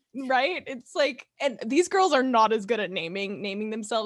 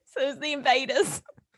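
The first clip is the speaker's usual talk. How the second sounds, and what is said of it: Imitated Australian accent. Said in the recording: “in an Australian accent that I can't do ... That's actually not bad.”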